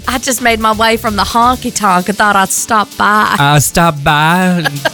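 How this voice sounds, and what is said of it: Put-on Southern Belle accent. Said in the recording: “can you do a Southern Belle accent”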